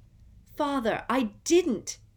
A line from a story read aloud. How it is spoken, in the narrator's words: shrieked the boy in chains now